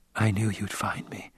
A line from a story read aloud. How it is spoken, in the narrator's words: she whispered